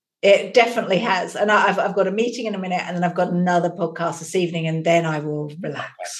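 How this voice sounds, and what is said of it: English accent. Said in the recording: “Everything sounds smarter, more brilliant in an English accent”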